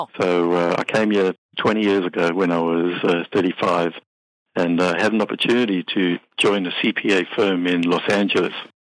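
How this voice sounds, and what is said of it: South African accent. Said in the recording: “you have an interesting accent. I never heard that before.”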